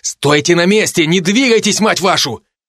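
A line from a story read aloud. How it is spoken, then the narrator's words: Shouting. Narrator (Russian): крикнул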